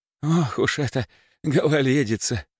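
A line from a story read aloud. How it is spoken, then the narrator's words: Sigh. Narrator (Russian): вздохнул встречающий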